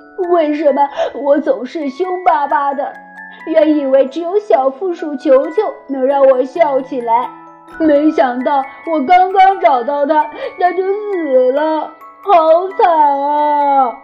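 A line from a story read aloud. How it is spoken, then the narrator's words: Crying. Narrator (Chinese): 他哭着说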